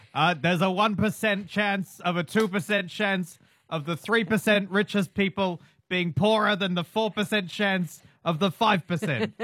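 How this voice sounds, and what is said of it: Shouty Bernie Sanders impression. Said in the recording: “that's your Bernie Sanders impression. I half did that. ... I'm probably a bit more shouting than usual.”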